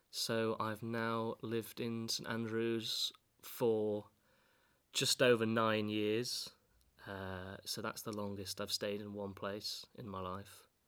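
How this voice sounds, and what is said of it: Mild East Yorkshire northern English accent. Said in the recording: “not the most pronounced East Yorkshire accent, but still a bit northern”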